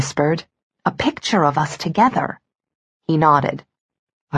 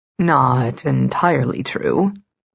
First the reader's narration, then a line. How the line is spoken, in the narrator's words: he said smoothly